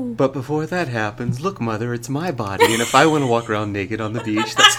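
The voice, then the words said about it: Mock public radio announcer voice. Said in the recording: “in the public radio voice?”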